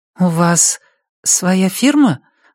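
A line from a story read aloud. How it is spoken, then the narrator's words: Timid question. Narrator (Russian): робко спрашивает Ами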